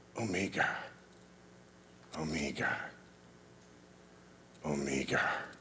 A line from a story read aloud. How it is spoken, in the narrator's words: his voice dropped and he whispered, almost in a prayer